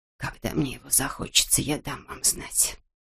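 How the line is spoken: Old woman's whisper. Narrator (Russian): прошептала старуха

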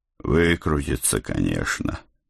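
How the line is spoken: Sigh. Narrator (Russian): вздохнул я

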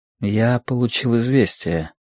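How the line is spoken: Quiet. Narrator (Russian): тихо сказал Лю

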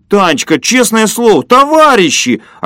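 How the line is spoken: Offended yell across street. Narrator (Russian): обиженно завопил Фокин через улицу

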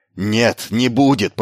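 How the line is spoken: Growled. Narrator (Russian): прорычал он

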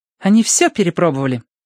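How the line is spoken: Confirming. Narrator (Russian): подтвердила Верити

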